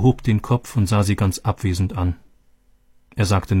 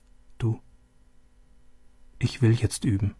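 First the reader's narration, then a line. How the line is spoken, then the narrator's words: Soft. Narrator (German): Leise sagte sie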